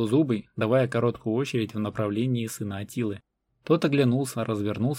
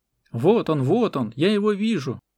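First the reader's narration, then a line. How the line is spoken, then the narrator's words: Yelling. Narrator (Russian): орал Двузубый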